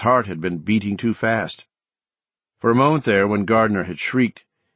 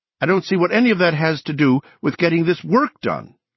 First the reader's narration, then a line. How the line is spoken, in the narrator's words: Andy cried in a hectoring voice utterly unlike him